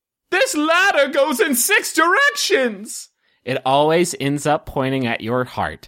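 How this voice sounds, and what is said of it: Wizard character voice. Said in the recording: “in my wizard swears voice ... I think you nailed it”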